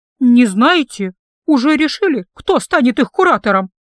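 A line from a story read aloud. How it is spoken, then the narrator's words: Agitated question. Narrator (Russian): Взволнованным голосом спросила преподавательница по ментальной магии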